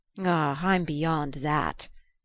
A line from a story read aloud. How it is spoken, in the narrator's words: groaned